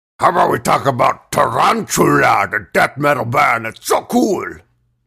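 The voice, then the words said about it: Cartoon character voice, Strong Bad. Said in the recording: “Accent. ... He's doing Strong Bad.”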